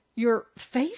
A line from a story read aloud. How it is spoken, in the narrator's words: said Miss Wright, her voice cracking